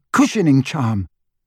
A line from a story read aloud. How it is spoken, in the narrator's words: Hermione spluttered